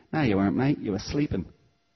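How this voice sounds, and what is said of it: Attempted Cockney accent. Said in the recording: “I'm going to get my Cockney accent wrong now”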